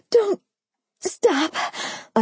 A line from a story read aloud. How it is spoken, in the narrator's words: I groaned loud, louder, and then louder still, unable to contain the sounds I was making